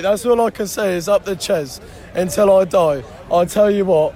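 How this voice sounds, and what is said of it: Hoarse, strained voice. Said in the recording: “I've lost my voice in that last 30 seconds of that match”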